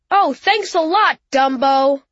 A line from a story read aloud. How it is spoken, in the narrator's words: Andy yelled across the table